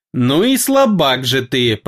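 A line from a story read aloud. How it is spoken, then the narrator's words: Hissed through teeth. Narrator (Russian): процедила она на нашем языке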